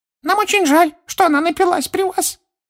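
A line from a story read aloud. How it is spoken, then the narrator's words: Dejected squeak. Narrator (Russian): понуро пропищал другой эльф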